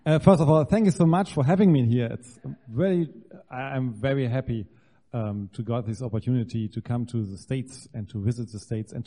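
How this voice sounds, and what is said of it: German accent. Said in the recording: “I'm from Germany, born and raised. You can hear this in my lovely accent.”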